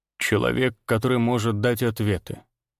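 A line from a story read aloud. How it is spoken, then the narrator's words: Calm stranger. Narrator (Russian): спокойно ответил незнакомец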